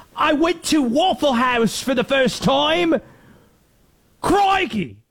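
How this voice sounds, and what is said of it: Put-on Australian or English accent. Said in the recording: “I can't do any other accent. They're all gonna sound Australian or English. Some combination of the two.”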